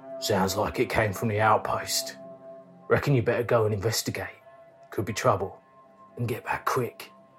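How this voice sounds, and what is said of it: Deep husky cockney character voice. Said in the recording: “In a deep voice ... he's giving you his husky voice. He's also a cockney.”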